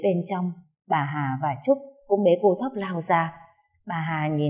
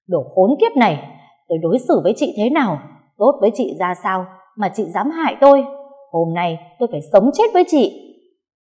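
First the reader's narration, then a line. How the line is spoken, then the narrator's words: Furious roar. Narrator (Vietnamese): cô Bích gầm lên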